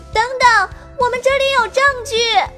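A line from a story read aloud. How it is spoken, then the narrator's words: Loud shout. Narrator (Chinese): 糖糖 高声呼喊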